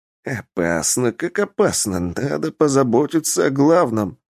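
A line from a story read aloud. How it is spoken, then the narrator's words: Muttering under breath. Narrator (Russian): бормотал себе под нос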